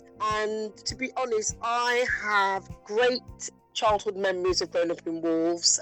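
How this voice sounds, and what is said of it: Slight Wolverhampton accent twang. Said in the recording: “I can hear a little twang in your voice ... I grew up in Wolverhampton ... So that's the twang you can hear in my voice.”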